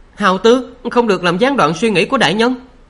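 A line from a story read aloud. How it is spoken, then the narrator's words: Sharp scolding. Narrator (Vietnamese): Đại ma pháp sư Yết Lệ Nhã nạt y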